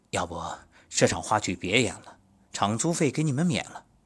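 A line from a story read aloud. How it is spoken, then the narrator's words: Sympathetic. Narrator (Chinese): 剧院负责人都很同情，说道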